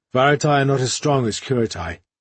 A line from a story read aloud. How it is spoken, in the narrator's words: Lekran advised in a wary tone